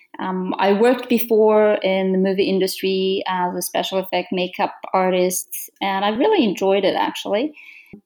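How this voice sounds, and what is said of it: Romanian-accented English. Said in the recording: “we love your beautiful accent ... About my accent, I can't hide that ... I'm from Romania.”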